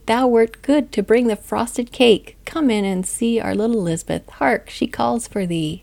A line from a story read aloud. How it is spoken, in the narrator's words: called him loudly